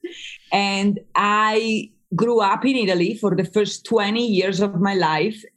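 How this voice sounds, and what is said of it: Slight Italian accent. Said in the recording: “I am Italian-American. I still have a little bit of accent.”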